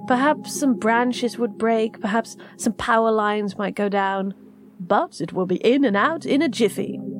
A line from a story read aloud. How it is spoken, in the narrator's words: he chuckled